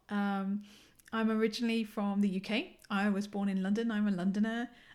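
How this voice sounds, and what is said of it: English London accent. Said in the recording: “my accent hopefully is still pretty English”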